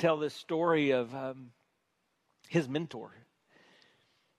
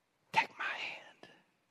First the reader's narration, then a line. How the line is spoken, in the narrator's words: she whispered